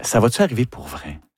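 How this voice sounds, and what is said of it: Whispering. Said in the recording (French): “On chuchote.”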